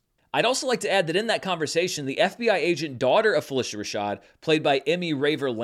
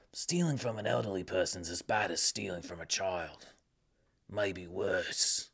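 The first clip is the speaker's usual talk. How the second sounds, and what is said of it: Modest Jason Statham impression. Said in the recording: “my Jason Statham impression is not as good as my friend Spencer J. Gilbert's”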